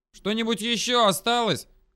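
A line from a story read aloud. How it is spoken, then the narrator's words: Loud question. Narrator (Russian): громко спросила у нее толстозадая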